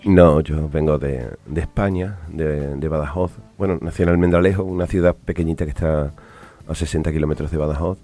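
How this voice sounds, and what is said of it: Spanish accent from Spain. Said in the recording (Spanish): “por tu acento, por tu, por tu entonación, no sos del país”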